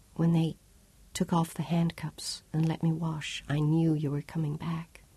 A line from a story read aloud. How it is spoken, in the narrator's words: Claudia whispered